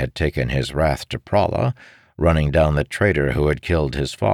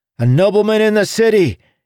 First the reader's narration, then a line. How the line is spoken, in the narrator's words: he exclaimed to his friends at the other end of the bar